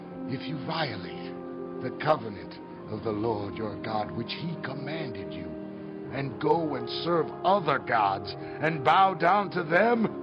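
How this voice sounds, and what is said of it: American accent. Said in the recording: “Excuse the American accent”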